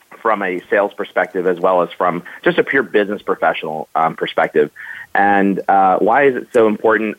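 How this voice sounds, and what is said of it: Voice of someone with a cold. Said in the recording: “if you hear me swallowing, it's because I have a cold”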